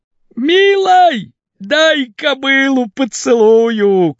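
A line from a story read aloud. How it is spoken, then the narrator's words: Shouting. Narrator (Russian): крикнул варвар без шапки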